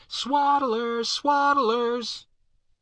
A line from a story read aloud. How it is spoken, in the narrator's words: the ragged troop screaming after us